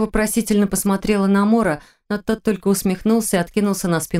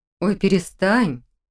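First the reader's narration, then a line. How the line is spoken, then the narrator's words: Uncertain demand. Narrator (Russian): Неуверенно потребовала Хильда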